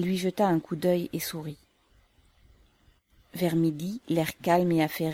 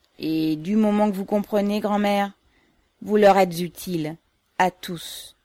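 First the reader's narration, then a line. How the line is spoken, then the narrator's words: Grave declaration. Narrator (French): déclara Yegor d'un ton grave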